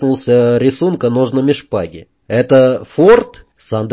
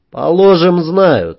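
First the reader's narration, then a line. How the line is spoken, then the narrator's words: Plain. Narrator (Russian): сказал Джек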